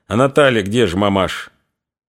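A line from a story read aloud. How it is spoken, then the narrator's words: Cold question. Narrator (Russian): холодно спросила у свекрови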